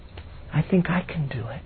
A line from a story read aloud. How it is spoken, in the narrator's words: she said very quietly